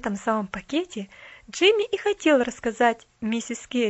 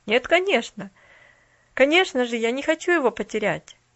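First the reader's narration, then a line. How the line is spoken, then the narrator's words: Calm, smiling reply. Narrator (Russian): улыбнулся в ответ Джимми спокойно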